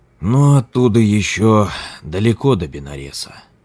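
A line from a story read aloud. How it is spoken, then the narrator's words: Tired lama, chewing. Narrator (Russian): устало молвил лама, жуя лепешки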